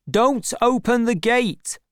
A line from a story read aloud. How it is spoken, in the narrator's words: shouted Gabriel to the gatekeeper